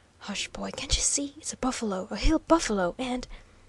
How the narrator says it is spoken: hastily whispered

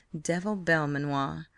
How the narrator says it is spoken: murmuring

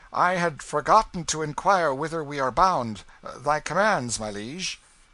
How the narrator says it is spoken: Hendon reined up and called out

